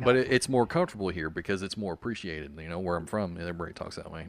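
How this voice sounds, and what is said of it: Thick Southern country accent. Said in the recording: “I just kind of like dropped my accent... everyone pointed out that I did not, in fact, drop it... sound like you're from the South... being from the South and being from the country, and I'm from both... so it gets pretty thick”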